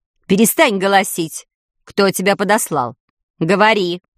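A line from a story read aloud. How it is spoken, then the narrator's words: Stern demand. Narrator (Russian): Строго потребовала Медузия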